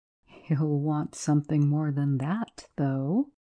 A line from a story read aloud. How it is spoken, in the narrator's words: Jones laughed quietly to himself